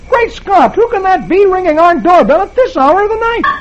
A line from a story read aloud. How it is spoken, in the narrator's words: He exclaiming